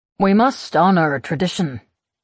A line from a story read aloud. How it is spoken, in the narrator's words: he says